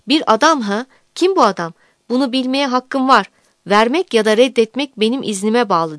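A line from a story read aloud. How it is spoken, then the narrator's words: Judge's hoarse shout. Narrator (Turkish): diye bağıran yargıcın sesi kısılmıştı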